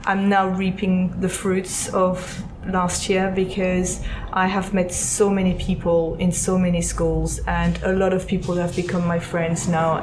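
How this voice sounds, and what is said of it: Non-American accent. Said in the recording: “you might have gathered with the accent that I am not American”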